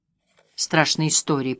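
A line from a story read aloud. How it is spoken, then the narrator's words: Muttering. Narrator (Russian): пробормотал дядя Эйнар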